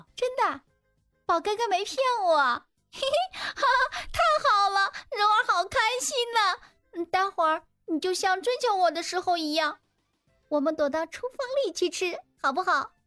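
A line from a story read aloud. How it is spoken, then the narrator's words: Crying with happiness. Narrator (Chinese): 曾柔听罢，马上直哭，一脸开心的说道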